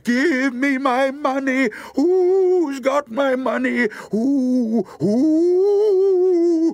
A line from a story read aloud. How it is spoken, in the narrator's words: way off a voice cried